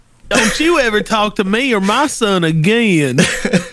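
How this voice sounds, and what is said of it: Imitates another person's voice. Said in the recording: “That is my Reba impression. ... It was good.”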